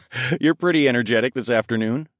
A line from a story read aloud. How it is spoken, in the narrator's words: I chuckled